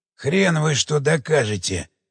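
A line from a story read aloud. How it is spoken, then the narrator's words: Muttered. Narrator (Russian): пробормотал Обухов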